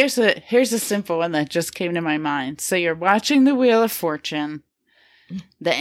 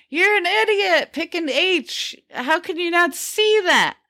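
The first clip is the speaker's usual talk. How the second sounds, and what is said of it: Yelling. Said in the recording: “you're yelling at the TV”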